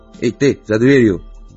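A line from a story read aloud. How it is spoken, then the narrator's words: Grumbling. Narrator (Russian): проворчал сержант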